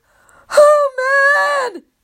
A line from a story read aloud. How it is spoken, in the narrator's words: He moans